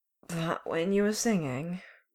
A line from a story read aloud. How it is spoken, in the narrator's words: Clint slurred